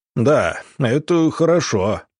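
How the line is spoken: Sighing. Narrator (Russian): начмет Глушаков, вздохнув

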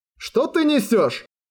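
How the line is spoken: Yelling young man. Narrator (Russian): заорал парень на криво улыбавшуюся девушку

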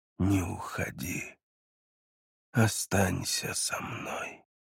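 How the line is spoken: Weak, effortful whisper. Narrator (Russian): Он долго собирался с силами, и прежде чем вновь отключиться, успел прошептать

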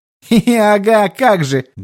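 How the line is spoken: Laughing. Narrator (Russian): Гуэнь рассмеялся

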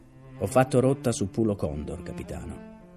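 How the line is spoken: Plain. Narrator (Italian): disse

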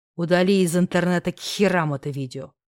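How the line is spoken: Growl. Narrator (Russian): прорычал я

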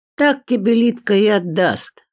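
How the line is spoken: Laughing. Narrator (Russian): хохотнул Петров

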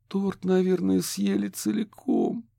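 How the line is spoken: Moaning. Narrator (Russian): простонала Кэти

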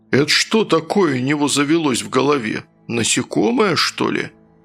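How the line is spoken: Spellbound bass near ear. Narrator (Russian): Завороженно пробасил у меня над ухом Оркус

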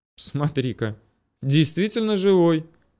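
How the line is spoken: Amused snort. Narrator (Russian): хмыкнул он

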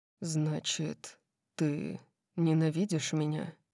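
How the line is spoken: Quiet question. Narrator (Russian): тихо спросил

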